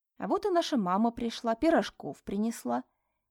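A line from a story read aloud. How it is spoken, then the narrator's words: Soft. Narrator (Russian): мягко проговорил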